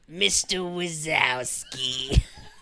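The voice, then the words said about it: Impression of Roz from Monsters, Inc. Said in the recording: “The Monsters, Inc. lady. ... Roz. Can you do Roz?”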